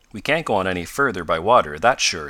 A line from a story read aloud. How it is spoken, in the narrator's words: said Tom